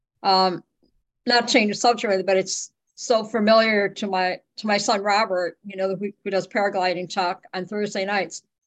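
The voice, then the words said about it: Choked-up, emotional voice. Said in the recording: “I just get a little choked up”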